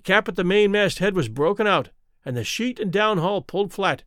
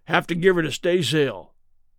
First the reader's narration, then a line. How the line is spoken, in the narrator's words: Charlie said